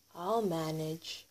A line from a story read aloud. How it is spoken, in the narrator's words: said